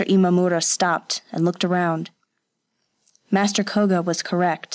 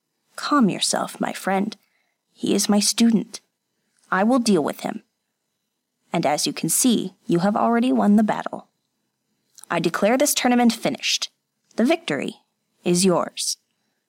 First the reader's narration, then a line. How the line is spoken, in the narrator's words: Master Koga said quietly